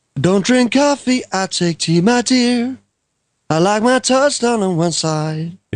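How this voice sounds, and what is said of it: Sung impression of a singer, passable. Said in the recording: “you do a very good Sting impression ... an impression of Sting singing ... your Alec Guinness was much better ... It was passable.”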